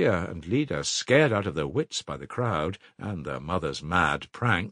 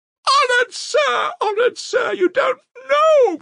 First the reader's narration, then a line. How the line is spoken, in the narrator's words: screamed Katerina Ivanovna